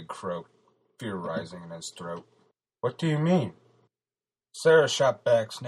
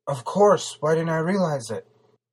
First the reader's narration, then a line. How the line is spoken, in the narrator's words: She shouted in revelation